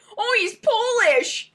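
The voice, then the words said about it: Strong Minnesotan accent. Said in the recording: “I said that in like a really Minnesotan accent.”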